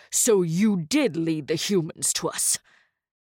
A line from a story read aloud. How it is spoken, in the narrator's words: Sorrel growled, his expression darkening